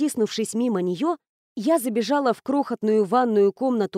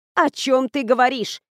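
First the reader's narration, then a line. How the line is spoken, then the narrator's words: Indignant, lower voice. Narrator (Russian): Все еще возмущенно, но гораздо ниже спросила Гвен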